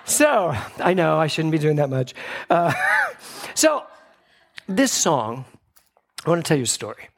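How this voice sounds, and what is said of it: Out of breath, panting. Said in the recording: “Why am I out of breath? ... Because I was like thinking I was Flashdance.”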